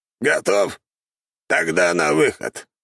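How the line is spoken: Hoarse rasp. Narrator (Russian): прохрипел Чертков

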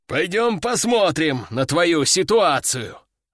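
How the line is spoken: Sighing man. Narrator (Russian): вздохнул мужчина

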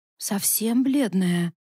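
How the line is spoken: Sad. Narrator (Russian): печально согласилась Илька

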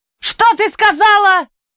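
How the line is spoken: Angry exclamation. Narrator (Russian): воскликнул Уилл, в гневе

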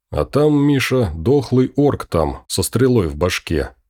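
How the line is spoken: Sighing, hesitant answer. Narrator (Russian): Костя вздохнул, подбирая слова, и ответил

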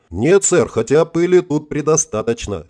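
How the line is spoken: Snorting chuckle. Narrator (Russian): хмыкнул Гринев

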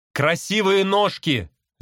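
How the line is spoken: Shouting. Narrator (Russian): закричал я

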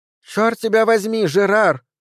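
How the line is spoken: Shout. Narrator (Russian): закричала она

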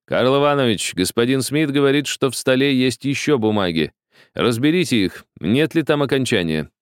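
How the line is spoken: Plain. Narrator (Russian): сказал Гарри

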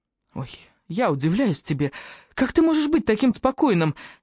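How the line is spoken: Exclaimed nearly in tears. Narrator (Russian): едва ли не сквозь слезы воскликнул Джастин

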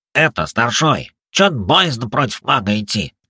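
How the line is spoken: Nasal, young robber. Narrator (Russian): прогнусавил молодой разбойник

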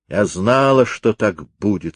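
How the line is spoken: Plain. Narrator (Russian): сказала она

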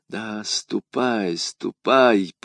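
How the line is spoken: Whisper. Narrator (Russian): прошептала она вслед своему деверю

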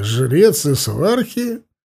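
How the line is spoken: Demanding. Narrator (Russian): Он расхохотался, но тут же умолк и потребовал

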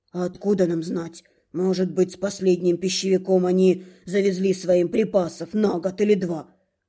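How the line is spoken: Grumbling cook. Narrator (Russian): буркнул наш повар

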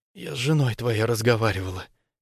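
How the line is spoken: Barely audible hoarse. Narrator (Russian): сипит еле слышно

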